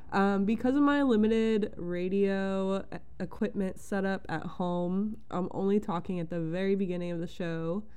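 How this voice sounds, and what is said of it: Congested, stuffy-nosed voice. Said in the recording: “I sound a little congested. ... I'm getting over a random summer cold today”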